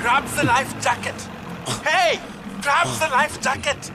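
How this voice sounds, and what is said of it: Shouting voice with European accent. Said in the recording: “a voice with a European accent calling out”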